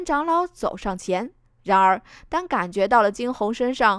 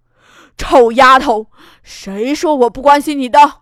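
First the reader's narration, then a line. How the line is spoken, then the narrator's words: Roar. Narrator (Chinese): 安长老再是一声吼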